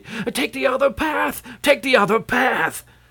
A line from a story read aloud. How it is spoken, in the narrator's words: this man shouting excitedly